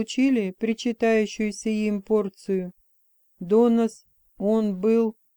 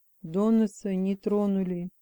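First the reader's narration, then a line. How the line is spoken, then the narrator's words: Quiet. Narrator (Russian): тихо сказал он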